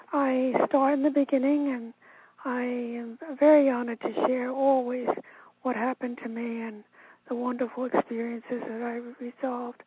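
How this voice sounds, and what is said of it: Strained voice from bowed vocal cord. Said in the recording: “I hope you can understand me. I have what is called a bowed vocal cord or a bowed vocal cord, which means I've had so much surgery in my life that recent vocal cords have become stretched into a bow shape, so it's difficult. Sometimes in the evening I lose my voice”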